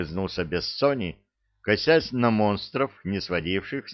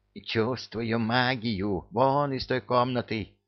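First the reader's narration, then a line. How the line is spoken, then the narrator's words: Whispered. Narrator (Russian): прошептал Люка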